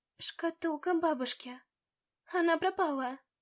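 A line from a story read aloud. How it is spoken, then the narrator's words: Dejected voice. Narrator (Russian): упавшим голосом ответила я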